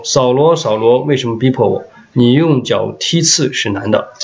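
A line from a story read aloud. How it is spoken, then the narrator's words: Speaking in Hebrew. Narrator (Chinese): 有声音用希伯来话向我说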